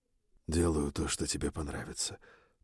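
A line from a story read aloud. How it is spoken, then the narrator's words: Murmured into ear. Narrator (Russian): пробормотал я ей на ухо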